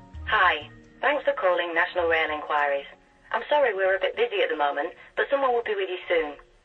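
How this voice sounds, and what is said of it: Warm female voice, regional accent. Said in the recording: “She's warm, it's a nice touch with a regional accent”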